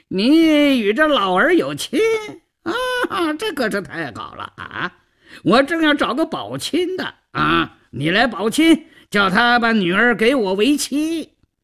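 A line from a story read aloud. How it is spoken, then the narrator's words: Flippant, teasing. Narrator (Chinese): 赵都巡 嬉皮笑脸的胡搅蛮缠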